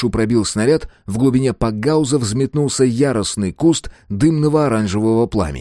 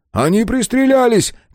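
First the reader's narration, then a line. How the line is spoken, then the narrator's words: Shout. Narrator (Russian): крикнул Брайан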